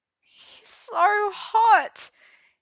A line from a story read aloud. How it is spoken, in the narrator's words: he gulped miserably